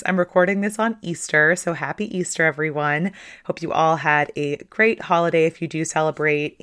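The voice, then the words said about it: Slightly hoarse voice. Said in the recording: “my voice is a little bit hoarse.”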